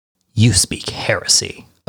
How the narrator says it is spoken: Omegon growled

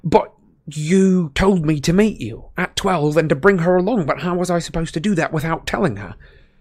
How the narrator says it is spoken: spluttered Harry

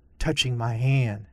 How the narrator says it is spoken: Ulysses whispered in her ear

